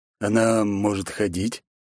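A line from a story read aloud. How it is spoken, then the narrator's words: Cautious undertone question. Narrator (Russian): осторожно поинтересовался Гамбл вполголоса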